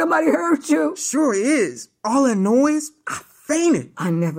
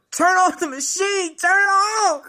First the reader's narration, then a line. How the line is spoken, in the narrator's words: I hollered